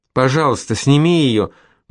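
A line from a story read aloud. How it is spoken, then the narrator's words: Pleading. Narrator (Russian): взмолилась Колетта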